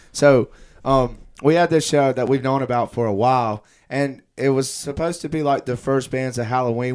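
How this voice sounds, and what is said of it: Slightly hoarse voice. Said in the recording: “still a little hoarse? I hear a little bit of a hoarseness”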